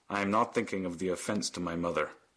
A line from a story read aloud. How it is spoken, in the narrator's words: Stephen said very coldly